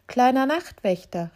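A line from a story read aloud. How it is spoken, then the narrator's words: Called out. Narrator (German): rief es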